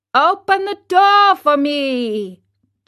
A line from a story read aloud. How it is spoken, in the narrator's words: Geppetto shouted from the street